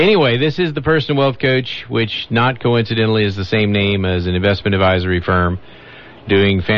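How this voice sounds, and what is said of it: Usual voice. Nothing is said of it.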